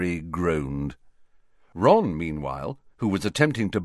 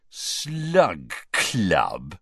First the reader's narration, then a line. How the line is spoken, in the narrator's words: repeated Ron, with a sneer worthy of Malfoy